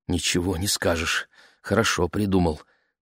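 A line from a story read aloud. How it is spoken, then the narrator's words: Muttered. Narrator (Russian): пробормотала мама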